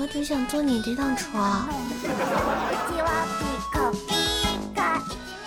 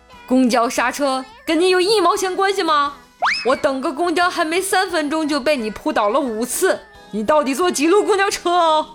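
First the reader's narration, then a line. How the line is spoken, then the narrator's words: Angry roar. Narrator (Chinese): 帅哥怒吼道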